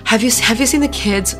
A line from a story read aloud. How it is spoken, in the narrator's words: Sarah panted